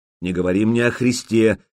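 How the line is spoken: Angry, curt. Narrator (Russian): сердито бросил Олаф

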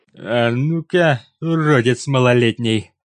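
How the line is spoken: Nasty drawl through teeth, big man. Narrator (Russian): Мерзко процедил здоровяк, растягивая слова

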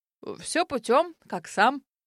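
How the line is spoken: Unexpectedly deep bass voice. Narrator (Russian): та отозвалась неожиданным басом

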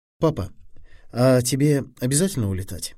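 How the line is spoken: Plain question. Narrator (Russian): спросил Фили

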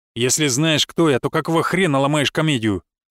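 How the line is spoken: Growled. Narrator (Russian): рыкнул он

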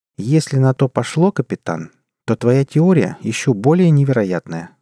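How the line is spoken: Plain. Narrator (Russian): сказала Джанет

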